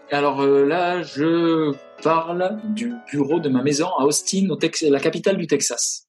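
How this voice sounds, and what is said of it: Strong southwestern French accent. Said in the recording (French): “je suis originaire du sud-ouest, euh, à moitié les Landes, à moitié le Pays Basque ... j'ai toujours pas perdu mon accent, fort”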